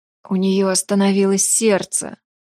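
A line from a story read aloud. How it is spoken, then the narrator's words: Hoarse. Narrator (Russian): Прохрипела я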